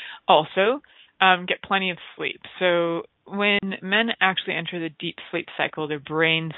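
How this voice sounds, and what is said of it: Usual voice. Nothing is said of it.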